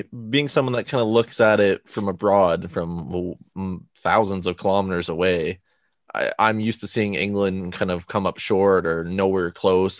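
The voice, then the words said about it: Non-English foreign accent. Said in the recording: “I'm not from England, of course, if it's not more obvious because of my accent”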